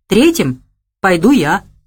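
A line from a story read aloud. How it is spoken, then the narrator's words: Calm reply. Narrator (Russian): спокойно ответил Богомолов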